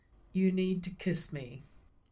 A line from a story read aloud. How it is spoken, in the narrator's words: said in a flat tone